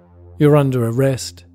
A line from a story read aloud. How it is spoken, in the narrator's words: he said